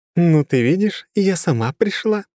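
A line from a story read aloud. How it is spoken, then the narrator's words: Laughing goddess. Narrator (Russian): рассмеялась темная богиня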